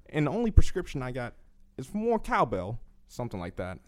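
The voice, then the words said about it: Christopher Walken impression. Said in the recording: “I can do Christopher Walken ... I mean, it was it was okay.”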